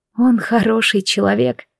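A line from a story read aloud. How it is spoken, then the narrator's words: Prayerful, self-soothing whisper. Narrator (Russian): прошептала я, то ли молясь Высшему, то ли успокаивая сама себя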